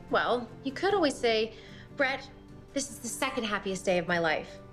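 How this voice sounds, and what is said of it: Sarcastic delivery. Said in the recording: “being sarcastic”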